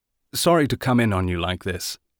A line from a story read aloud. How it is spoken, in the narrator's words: he said